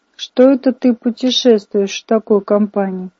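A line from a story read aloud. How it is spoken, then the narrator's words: Stunned mumble, brother. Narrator (Russian): промямлил мой брат, потрясенный видом бога-кузнеца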